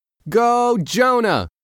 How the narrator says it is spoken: a voice shouted

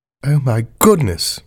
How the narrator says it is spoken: murmured the Queen

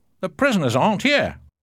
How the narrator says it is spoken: Suddenly, John shouted

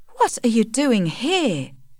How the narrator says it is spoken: exclaimed

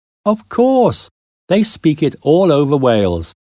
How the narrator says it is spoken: he laughed

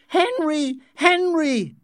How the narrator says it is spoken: she screamed

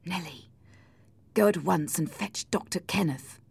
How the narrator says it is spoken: said Edgar quietly

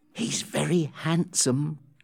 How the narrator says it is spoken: Becky said to Amelia in a rather loud whisper

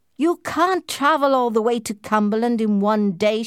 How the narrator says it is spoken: shouted Sir Percival

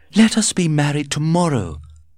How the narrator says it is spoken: cried Lord Arthur

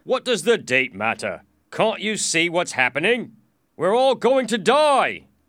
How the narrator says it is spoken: shouted

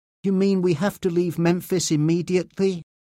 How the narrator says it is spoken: Diane asked

